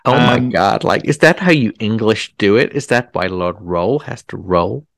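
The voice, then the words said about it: Put-on American accent. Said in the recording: “That was a brilliant American accent ... it was as though you were in Kentucky or Chicago.”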